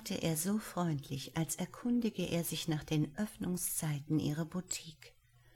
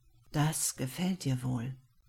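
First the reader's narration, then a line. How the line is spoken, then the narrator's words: Speaking, suppressing a moan. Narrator (German): sagte er, konnte sein eigenes Stöhnen kaum unterdrücken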